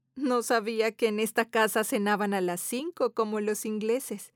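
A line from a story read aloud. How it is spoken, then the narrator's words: Laughing. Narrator (Spanish): Teresa dice entre risas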